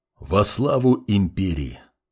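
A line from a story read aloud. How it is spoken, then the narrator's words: Quiet reply. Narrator (Russian): тихо ответил паладин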